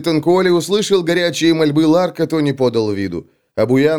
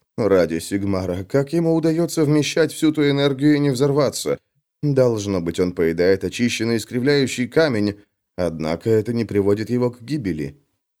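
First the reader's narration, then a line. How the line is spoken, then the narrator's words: Mutter. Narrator (Russian): Шрейбер пробормотал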